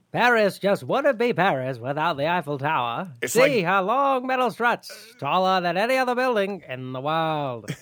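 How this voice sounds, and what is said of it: Old-timey announcer voice. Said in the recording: “old-timey voice”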